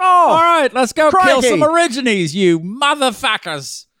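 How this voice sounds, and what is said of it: Mixed-up put-on Australian accent. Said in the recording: “I mixed some accents there... accent gumbo”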